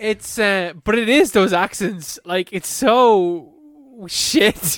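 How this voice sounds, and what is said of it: Usual voice. Nothing is said of it.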